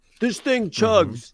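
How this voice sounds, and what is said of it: Imitates another person's voice. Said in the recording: “That was my impersonation of Ola.”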